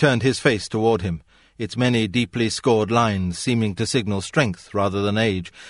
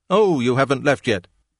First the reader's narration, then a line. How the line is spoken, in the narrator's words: in agitation, the vice president exclaimed